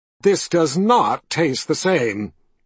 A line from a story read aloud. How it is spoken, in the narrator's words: she said in her mean voice